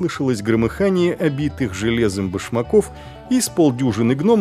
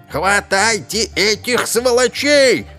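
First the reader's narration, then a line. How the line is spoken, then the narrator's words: Yelling. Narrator (Russian): заорал господин Ломозуб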